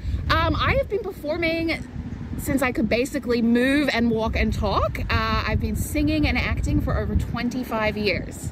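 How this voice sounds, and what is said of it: Slight Australian accent, hybrid. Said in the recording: “you have a little accent going on there ... I do have a little bit of an accent ... I'm originally from Sydney, Australia, and I have been living in Vancouver now for just over 9 years ... it's a bit of a hybrid accent”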